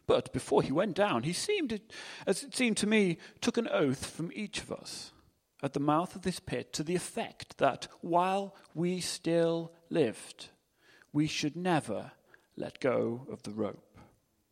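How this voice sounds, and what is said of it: Phony English accent. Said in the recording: “I can put on a phony English accent.”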